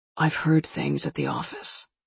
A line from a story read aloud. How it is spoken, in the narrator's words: he said, whispering